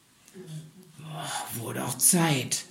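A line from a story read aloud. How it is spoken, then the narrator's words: Hoarse, relieved exclamation. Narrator (German): stieß Anton mit heiserer Stimme hervor, als er die Retter erkannte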